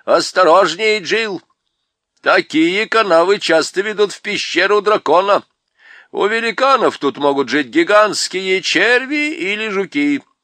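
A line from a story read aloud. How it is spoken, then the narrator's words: Shout from behind. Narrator (Russian): Хмур прокричал сзади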